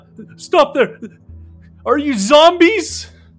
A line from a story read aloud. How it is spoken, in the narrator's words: The man cries out